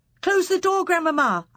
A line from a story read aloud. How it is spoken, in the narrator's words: I cried